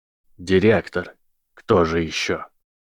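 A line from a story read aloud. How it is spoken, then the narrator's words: Calm, after a pause. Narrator (Russian): После некоторой паузы спокойно ответил голос Северуса Снейпа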